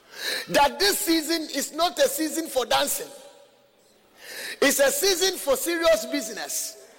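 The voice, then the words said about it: Foreign accent. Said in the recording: “My accent will even put them off because it will tell them from where I'm coming from”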